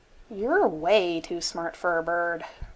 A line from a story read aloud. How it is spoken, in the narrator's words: Carl grumbled